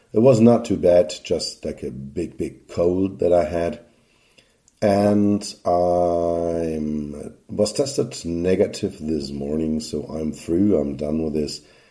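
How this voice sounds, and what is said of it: Sore, slightly hoarse voice. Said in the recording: “my voice is not in its usual condition ... What remains up to now is a bit of a sore voice. I'm coughing”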